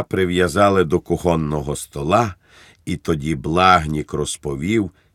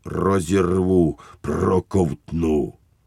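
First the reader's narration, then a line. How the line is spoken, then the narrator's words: Growling through snapping teeth. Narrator (Ukrainian): Він клацав зубами і гарчав, немов говорив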